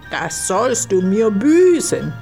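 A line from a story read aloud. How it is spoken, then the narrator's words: Angry otter shouting. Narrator (German): schrie die Otter zornig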